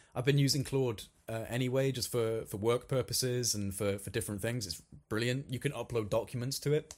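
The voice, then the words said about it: Slightly congested voice from cold. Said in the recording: “I've got a little bit of a cold. ... I can feel my throat starting to”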